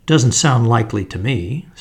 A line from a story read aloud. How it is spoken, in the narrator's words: said the inspector